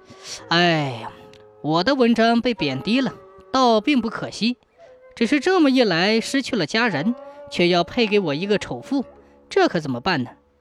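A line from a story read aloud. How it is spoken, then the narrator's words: Sighing. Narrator (Chinese): 蒋生叹息着说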